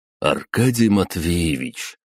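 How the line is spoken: Ingratiating, insinuating. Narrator (Russian): вкрадчиво обратился он к нему

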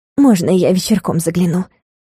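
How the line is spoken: Quiet request. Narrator (Russian): Попросила тихо, чтобы никто из товарок не услышал

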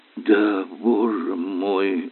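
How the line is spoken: Gasping sigh. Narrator (Russian): порывисто вздохнул, как тонущий

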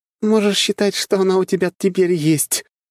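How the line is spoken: Sincere laughter. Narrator (Russian): искренне засмеялась Диана

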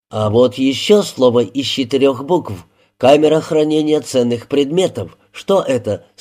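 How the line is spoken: Plain question. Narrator (Russian): спросил Клинк

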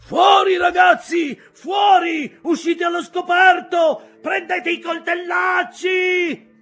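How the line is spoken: Captain shouting. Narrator (Italian): gridava il capitano

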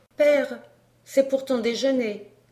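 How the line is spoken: Timid. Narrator (French): dit timidement Georget

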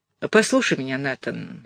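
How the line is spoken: Gentle. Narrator (Russian): ласково сказал инспектор Аллен

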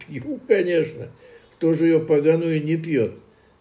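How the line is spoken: Laughing heartily, amused. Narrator (Russian): Белоусов расхохотался, ему шутка удалась

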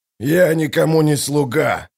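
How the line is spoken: Growling. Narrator (Russian): зарычал Калор

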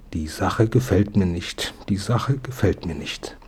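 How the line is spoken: Old-womanish mutter. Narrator (German): murmelte wie ihre eigene Großmutter

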